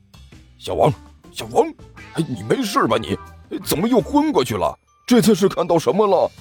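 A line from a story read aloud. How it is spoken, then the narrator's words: Urgent low call. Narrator (Chinese): 低声喊道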